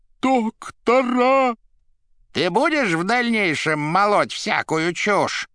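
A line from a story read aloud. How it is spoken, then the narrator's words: Menacing question. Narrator (Russian): грозно спросил фагот у плачущей головы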